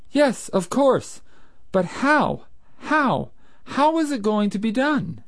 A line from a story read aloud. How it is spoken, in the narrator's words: exclaimed Breton